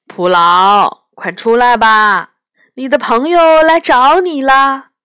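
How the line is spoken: Loud call. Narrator (Chinese): 教徒就大声对水晶殿门后的影子说

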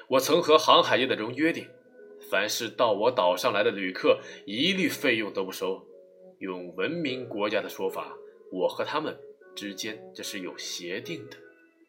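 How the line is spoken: Smiling. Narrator (Chinese): 基督山微笑的说道

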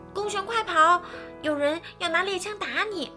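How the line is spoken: Shrill shout. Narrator (Chinese): 尼尔斯尖声喊叫道

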